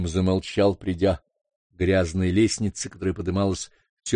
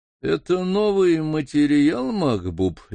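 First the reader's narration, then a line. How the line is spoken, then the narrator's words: Lazy, mouthpiece in mouth. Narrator (Russian): лениво проговорила Хунифа, почти не вынимая изо рта мундштука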